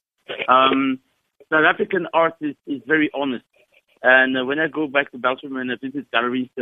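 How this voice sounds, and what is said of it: Belgian accent in English. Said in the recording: “you probably hear I have an accent. I'm originally from Belgium.”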